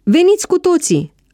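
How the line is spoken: Shouted. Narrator (Romanian): a strigat Pavel

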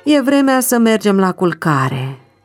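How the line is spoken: Sighing. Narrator (Romanian): zice el și se ridică oftând

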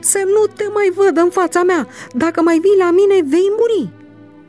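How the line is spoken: Screaming. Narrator (Romanian): a țipat faraon

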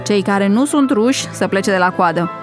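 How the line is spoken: Official shouting. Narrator (Romanian): alt milițian care strigă

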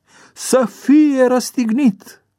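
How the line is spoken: Louder crowd shouting. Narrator (Romanian): au început să strige și mai tare

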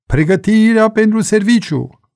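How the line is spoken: Shouting command. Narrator (Romanian): milițianul sau milițianca de serviciu striga

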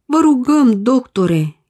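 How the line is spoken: Pleading father. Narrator (Romanian): implora tatăl

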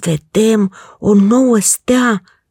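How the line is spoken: Group exclaiming. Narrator (Romanian): au exclamat și prietenii lui

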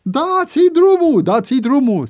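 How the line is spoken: Growing crowd shouting. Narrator (Romanian): strigau tot mai mulți

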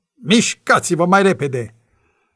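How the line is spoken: Impatient female guard shouting. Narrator (Romanian): Gardiana, văzând că nu se mișcă mai repede, a strigat

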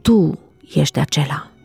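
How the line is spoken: Very quiet whisper. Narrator (Romanian): a șoptit atât de încet încât doar Iuda a auzit

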